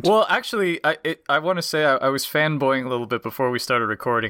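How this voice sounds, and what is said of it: American accent. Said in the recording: “you've got an American accent”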